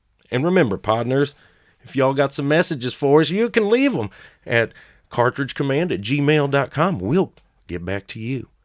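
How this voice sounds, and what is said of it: Exaggerated fake Southwestern drawl. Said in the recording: “Don't worry, fellow Southwesterners. That horrible accent grates on me just as much as it does all of you ... I'm not sure I ever met a single human that talked close to that.”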